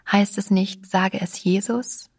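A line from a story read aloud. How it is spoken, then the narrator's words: Gentle question. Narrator (German): fragte ich sanft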